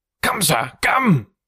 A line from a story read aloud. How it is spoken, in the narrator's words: cried Franklin, rushing upstairs